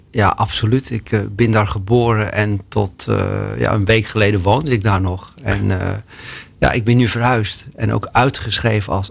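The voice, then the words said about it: Light Amsterdam accent. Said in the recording (Dutch): “ik hoor een licht Amsterdams accent”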